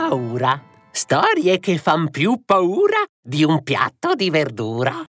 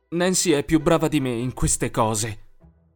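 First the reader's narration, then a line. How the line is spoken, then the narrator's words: Grumbled. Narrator (Italian): bofonchiò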